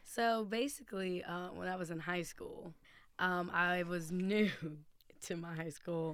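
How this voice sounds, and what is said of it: Usual voice. Nothing is said of it.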